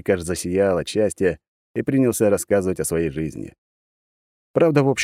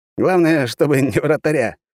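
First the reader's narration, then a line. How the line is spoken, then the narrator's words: Short chuckle. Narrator (Russian): хохотнул Вениамин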